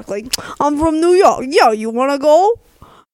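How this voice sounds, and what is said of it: Exaggerated, poor New York accent. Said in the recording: “That is a terrible New York accent.”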